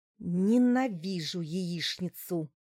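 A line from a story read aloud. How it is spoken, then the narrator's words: Through gritted teeth. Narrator (Russian): процедила она сквозь зубы, наткнувшись на мой взгляд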